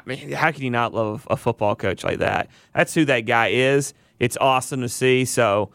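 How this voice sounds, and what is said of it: Southern American accent. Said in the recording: “I like a guy with a southern accent because I am one”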